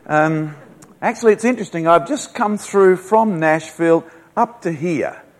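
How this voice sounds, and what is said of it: Speaks with a noticeable foreign accent. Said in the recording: “You won't have too much trouble understanding my accent, but when I'm in America, particularly down in the deep south, they have a little trouble with my accent.”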